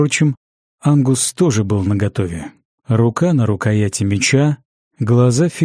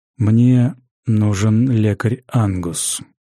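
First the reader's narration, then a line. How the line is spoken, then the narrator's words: Resonant, slightly husky. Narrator (Russian): звучным, слегка с хрипотцой голосом пояснил Гизар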